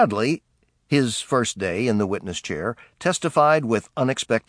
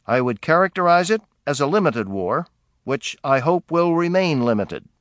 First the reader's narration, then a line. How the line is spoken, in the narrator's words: Marshall replied evenly